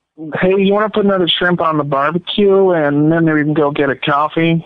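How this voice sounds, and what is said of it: Australian speaker doing American accent. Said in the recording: “Do you have an accent? ... I'm from Australia. ... in an American accent? ... That was amazing.”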